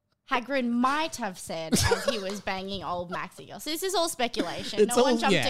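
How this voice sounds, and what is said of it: Usual voice. Nothing is said of it.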